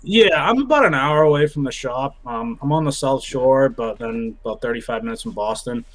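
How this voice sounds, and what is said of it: Noticeable regional accent. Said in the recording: “Everyone says I have a strong accent ... I can hear it a little”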